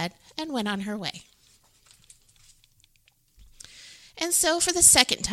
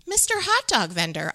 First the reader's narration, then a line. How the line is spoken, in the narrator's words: Amu exclaimed